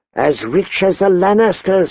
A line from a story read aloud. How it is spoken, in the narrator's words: wheezed